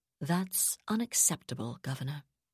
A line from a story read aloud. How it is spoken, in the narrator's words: Zavala said calmly